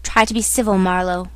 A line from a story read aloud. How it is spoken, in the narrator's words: growled a voice